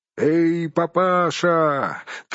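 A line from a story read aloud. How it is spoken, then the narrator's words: Shouting group. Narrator (Russian): кричали они Торину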